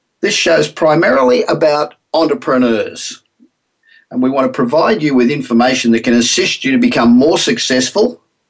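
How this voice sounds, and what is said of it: Australian accent. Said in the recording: “my accent ... I know I still sound like an Aussie”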